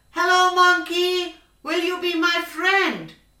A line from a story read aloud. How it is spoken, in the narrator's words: So the elephant called out